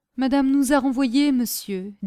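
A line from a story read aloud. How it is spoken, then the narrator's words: Deeply moved voice. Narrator (French): dit Caroline d'une voix très émue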